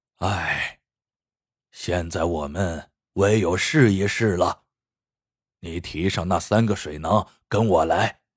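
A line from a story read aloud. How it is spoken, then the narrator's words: Sighing. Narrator (Chinese): 老人叹了口气，说道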